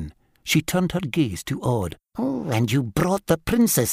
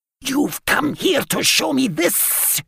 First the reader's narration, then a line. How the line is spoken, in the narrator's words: she shrieked